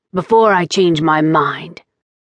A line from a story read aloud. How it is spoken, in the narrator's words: said roughly